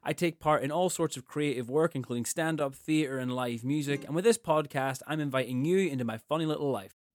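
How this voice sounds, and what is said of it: Irish accent. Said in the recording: “You might be able to guess from my accent that I'm from Ireland”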